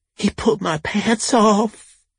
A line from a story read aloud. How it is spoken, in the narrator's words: she wailed with all the sincerity of a cup of lemon-flavored jello